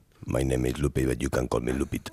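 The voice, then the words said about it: Put-on very deep voice. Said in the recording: “And look at my voice. Eh? I am doing a real deep voice, but I am a woman.”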